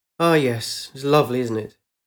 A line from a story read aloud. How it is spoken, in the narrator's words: Eileen half smiled and seemed to sigh